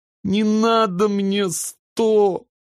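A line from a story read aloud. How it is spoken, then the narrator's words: Sobbing little sister. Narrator (Russian): всхлипнула сестренка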